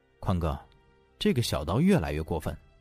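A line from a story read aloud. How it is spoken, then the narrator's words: Low voice. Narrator (Chinese): 男的低声道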